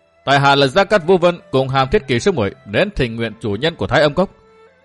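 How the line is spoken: Loud announcement. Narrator (Vietnamese): Vũ Vân lớn tiếng nói

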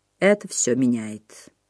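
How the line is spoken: Quiet speech. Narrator (Russian): тихо заговорил он

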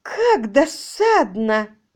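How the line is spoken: Exclamation. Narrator (Russian): воскликнула мисс Бут

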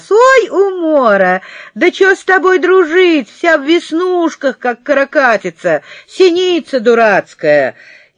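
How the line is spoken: Mocking laughter, loud shouting. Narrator (Russian): Павлик захохотал, как дурак, и заорал на весь класс

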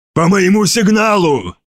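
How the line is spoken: Barked. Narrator (Russian): рявкнул Марвари

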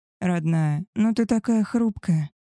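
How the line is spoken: Soft. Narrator (Russian): мягко сказал Алик

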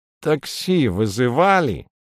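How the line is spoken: Nasal voice over phone. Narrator (Russian): гнусаво осведомляется трубка

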